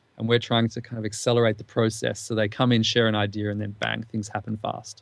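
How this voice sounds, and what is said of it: Australian accent. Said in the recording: “your accent is Australian”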